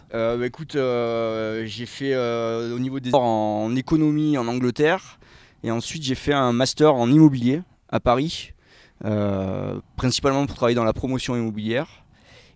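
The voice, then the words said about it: Slight southern French accent. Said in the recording (French): “il y a un petit accent dans ta voix ... je suis d'Avignon”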